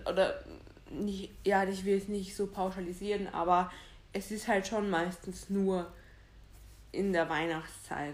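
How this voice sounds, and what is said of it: Regional German dialect. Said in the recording (German): “dass ich gerade so einen Dialekt abholt”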